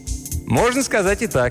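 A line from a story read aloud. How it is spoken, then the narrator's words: Cheerful reply. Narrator (Russian): весело ответил Мелдон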